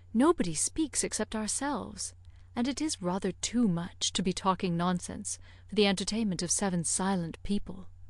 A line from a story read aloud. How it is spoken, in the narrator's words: lowering her voice